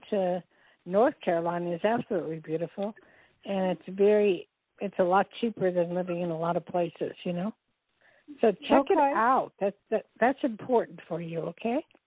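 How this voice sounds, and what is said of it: Strained, failing voice. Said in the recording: “I'm losing my voice because it's getting very dry in here”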